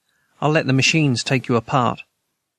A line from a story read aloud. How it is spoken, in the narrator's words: Rocket Boy said calmly